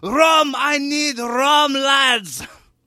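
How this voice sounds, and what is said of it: Put-on accent, shouted line. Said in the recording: “in the same accent”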